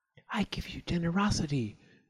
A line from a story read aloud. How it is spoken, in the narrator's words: whispered